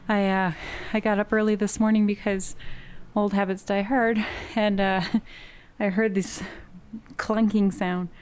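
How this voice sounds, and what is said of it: Out of breath, breathless speech. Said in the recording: “Sorry, I'm out of breath.”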